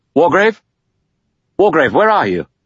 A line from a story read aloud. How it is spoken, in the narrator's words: Armstrong called out loudly